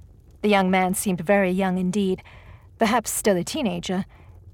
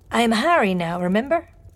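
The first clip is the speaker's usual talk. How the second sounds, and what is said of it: Eastern European accent. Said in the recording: “Beatrix detected an Eastern European accent.”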